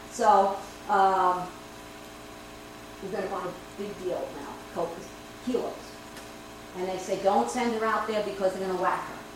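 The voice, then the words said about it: New York accent. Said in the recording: “I have a New York accent ... I can talk New York. I am a New Yorker at heart”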